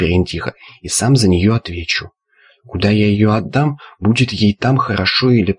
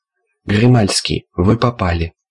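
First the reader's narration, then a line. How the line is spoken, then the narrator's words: Sad. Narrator (Russian): Печально заметил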